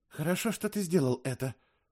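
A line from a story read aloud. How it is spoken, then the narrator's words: Whisper in ear. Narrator (Russian): шепнула она мне на ухо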